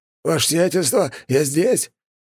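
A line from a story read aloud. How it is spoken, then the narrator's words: Old man's relieved exhale. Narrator (Russian): старик с облегчением выдохнул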